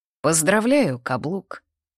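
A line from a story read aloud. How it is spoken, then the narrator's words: Wry snort. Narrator (Russian): Артем хмыкнул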